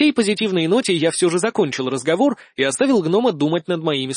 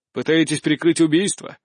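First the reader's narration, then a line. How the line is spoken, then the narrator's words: Snide question. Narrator (Russian): ехидно поинтересовался хмырь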